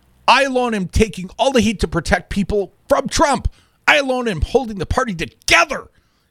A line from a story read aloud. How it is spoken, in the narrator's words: he yelled at Rep